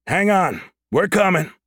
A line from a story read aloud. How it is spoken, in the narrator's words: Hayden shouted up at the Goliath